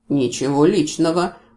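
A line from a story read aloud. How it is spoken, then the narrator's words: Sympathetic grumble. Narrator (Russian): пробурчал противник с неожиданным сочувствием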